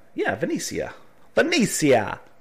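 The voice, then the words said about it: Put-on Italian accent. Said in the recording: “Why'd I say that with an Italian accent?”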